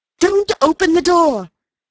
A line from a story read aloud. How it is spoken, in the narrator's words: cried Mrs